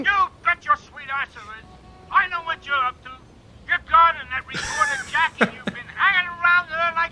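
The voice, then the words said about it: Drunken mumbling with unclear accent. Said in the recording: “he just sounds really, really drunk ... Got some serious Wiseau voice going on there. ... it's a mumbling mixed with an indistinguishable accent ... it's not obviously Eastern European”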